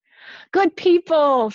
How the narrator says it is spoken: Francis cried

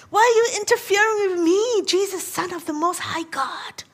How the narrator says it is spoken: He ... screams at the top of his lungs

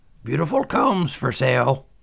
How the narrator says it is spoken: cried out

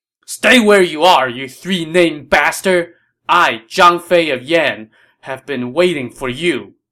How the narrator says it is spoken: This warrior roared

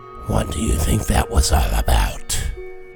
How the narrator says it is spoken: said in a low voice, at least low for a huge dragonborn

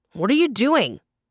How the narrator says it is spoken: he barked

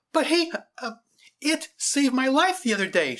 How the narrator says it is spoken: she cried out

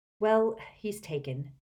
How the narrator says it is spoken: said Harry

